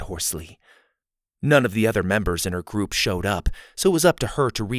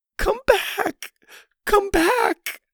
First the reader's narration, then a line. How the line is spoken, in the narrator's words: Lainey continued in her strained voice